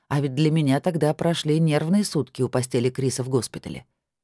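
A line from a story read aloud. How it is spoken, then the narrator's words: Calm confession. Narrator (Russian): спокойно признался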